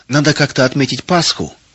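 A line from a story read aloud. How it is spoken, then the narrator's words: Cheerful. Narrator (Russian): весело сказал Арам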